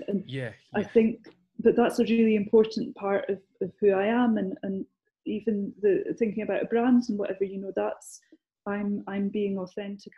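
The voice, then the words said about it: Scottish accent. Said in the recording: “my voice is recognisable because I'm Scottish ... I haven't lost my accent”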